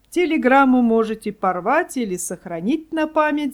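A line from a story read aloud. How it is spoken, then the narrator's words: Laughing. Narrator (Russian): засмеялся он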